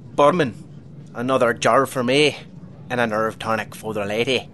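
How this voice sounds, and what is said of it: Unconvincing put-on Irish brogue. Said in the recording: “You're not still working on your brogue, are you? ... Not great, no.”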